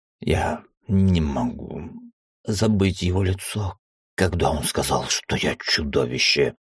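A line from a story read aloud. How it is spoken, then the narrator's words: Strangled rasp. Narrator (Russian): сдавленно прохрипел Аргон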